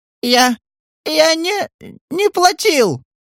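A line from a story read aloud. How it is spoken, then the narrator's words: Breathless shriek. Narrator (Russian): Задыхаясь, провизжал Бережной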